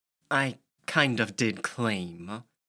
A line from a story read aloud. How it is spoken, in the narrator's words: Lillian said bitterly